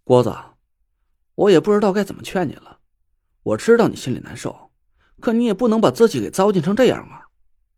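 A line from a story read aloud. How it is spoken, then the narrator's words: Sighing. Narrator (Chinese): 我叹了口气 说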